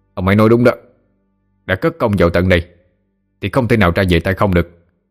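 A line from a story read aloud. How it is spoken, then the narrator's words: Angry. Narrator (Vietnamese): Lương Khánh giận dữ nói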